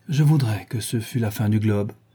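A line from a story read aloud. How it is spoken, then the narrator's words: Sighing. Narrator (French): dit Dorian avec un soupir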